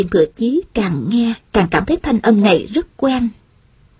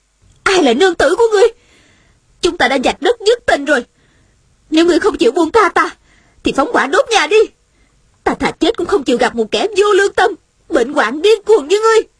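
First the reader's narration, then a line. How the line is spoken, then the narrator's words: Angry woman. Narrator (Vietnamese): Nữ nhân trong nhà giận dữ nói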